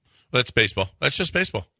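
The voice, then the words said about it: Imitates another person's voice. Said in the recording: “my bish imitation”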